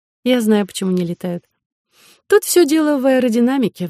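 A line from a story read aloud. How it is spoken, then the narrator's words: Sighing. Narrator (Russian): вздохнула Соня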